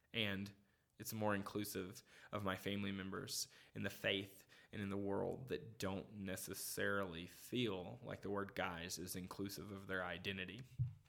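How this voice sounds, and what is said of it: Southern American accent with twang. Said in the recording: “my southern dialect with all my southern twang”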